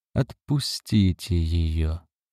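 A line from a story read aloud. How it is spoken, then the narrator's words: Soft and sincere. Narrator (Russian): мягко и искренне сказал он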